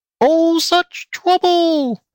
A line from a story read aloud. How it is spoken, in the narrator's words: squealed the pig lady